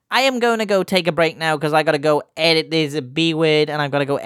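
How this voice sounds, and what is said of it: Usual voice. Nothing is said of it.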